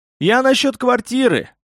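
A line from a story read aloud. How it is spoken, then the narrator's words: Desperate yell. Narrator (Russian): в отчаянии заорал несчастный висак Баши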